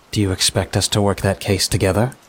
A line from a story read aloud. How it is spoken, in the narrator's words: She says, her voice dripping with innuendo